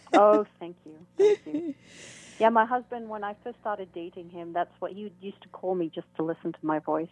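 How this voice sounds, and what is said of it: Noticeable accent, called beautiful. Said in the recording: “that beautiful accent”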